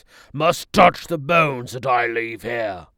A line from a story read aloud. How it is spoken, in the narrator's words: he said in a commanding voice